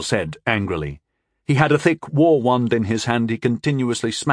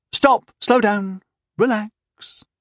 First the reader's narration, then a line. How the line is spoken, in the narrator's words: Astasia said soothingly